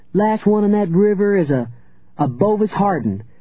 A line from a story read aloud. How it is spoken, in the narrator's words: Lucy cried